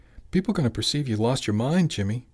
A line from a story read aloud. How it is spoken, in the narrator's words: Tony exclaimed